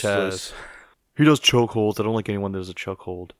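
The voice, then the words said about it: Poor imitation of another person's voice. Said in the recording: “terrible Phillip impression.”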